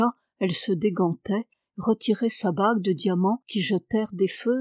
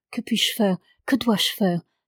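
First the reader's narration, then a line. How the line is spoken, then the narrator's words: Pleading. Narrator (French): supplia-t-elle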